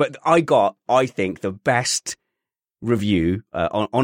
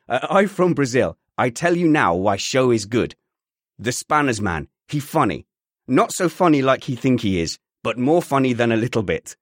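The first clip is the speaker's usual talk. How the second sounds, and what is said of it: Slight Brazilian accent. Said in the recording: “I'm from Brazil. And if it was with a slight accent, right, I'm slightly Hispanic”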